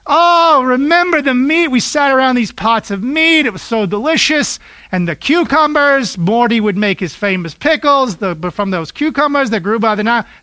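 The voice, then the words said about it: Put-on Jewish accent. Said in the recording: “This is my best Jewish accent.”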